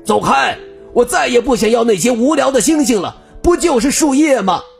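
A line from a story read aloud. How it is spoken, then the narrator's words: Angry roar. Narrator (Chinese): 坏脾气的格拉夫冲着小兔子怒吼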